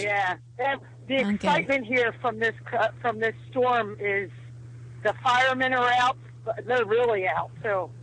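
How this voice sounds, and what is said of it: Philadelphia accent. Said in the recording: “this is how Philadelphians speak... she's a real Philadelphian. You hear the accent”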